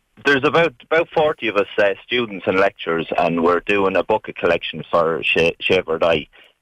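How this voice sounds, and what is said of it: Irish Mullingar accent. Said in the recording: “Is that a Mullingar accent, by the way? You're from Mullingar. ... It's an accent, all right. It's an accent.”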